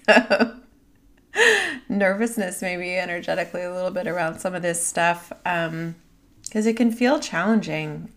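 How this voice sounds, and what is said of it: Raspy voice. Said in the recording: “I'm experiencing a raspy throat”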